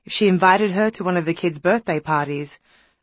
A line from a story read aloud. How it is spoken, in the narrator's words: Elizabeth sighed in a way that meant it would be excruciating for her